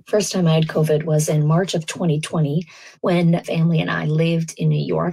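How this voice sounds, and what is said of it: Voice slightly sick, under the weather. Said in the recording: “you could probably hear that my voice is just slightly under the weather”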